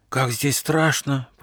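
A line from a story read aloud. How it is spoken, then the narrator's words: Whispered. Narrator (Russian): прошептал Гоша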